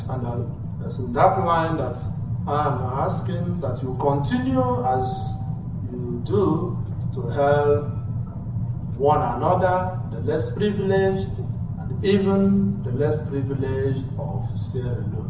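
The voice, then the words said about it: Irish accent. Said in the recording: “my Irish accent”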